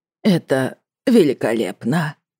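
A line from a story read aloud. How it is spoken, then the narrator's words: Suspiciously hoarse voice. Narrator (Russian): сказала она подозрительно хриплым голосом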